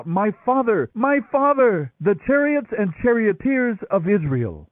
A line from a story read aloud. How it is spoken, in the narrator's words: Elisha saw it and cried out